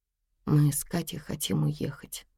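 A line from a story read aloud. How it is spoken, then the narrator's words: Quiet. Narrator (Russian): тихо сказала Тома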